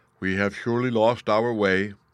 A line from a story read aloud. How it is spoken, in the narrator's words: he said